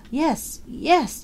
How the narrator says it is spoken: she gasped

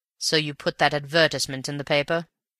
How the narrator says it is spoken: said Raffles, in the dry tones

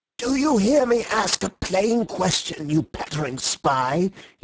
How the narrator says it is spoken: he shrieked in a high, crazy voice

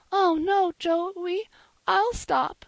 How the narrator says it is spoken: she sobbed out

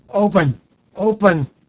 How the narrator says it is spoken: I shout imperiously

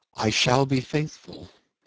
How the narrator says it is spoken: he said quietly

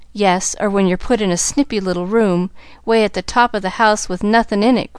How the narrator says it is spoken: growled Nancy

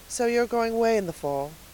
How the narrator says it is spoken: said Miss Lavendar wistfully

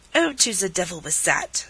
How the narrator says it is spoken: snapped Rivarol

